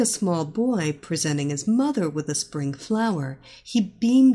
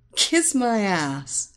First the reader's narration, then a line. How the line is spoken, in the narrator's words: she laughed